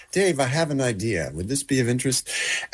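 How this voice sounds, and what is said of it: Attempted British accent. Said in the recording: “he's British. I can't really do his Ponzi accent.”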